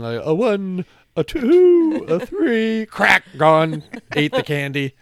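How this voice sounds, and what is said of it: Imitates cartoon owl from commercial. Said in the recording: “That was a good imitation of the owl from the, like, 1980 Tootsie Roll commercial.”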